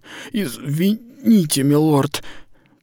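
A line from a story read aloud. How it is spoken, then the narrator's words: Hoarse wheeze. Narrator (Russian): прохрипела женщина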